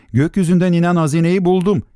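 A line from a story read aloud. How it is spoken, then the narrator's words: Shouted. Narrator (Turkish): diye bağırdı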